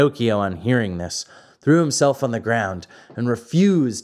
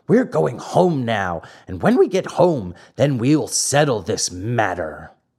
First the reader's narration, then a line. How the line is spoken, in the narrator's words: said angrily